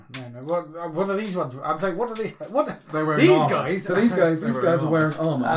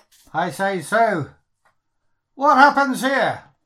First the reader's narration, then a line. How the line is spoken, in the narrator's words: I shout forward to them